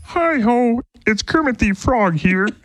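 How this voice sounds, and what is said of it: Kermit the Frog character voice. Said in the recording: “my Kermit impersonation ... That sounds like your Luke Bryan impression”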